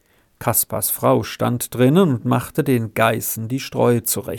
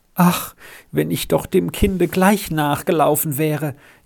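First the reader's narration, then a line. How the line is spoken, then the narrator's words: Wailing. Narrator (German): jammerte sie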